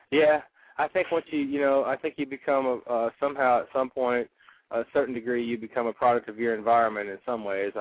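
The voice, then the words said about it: Noticeable regional accent. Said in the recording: “If you're a native Californian, where are you getting that accent?”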